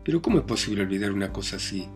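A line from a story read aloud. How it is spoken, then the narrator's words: Plain question. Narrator (Spanish): preguntó Razumiquín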